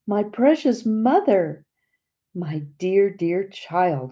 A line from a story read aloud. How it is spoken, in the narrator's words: we cried simultaneously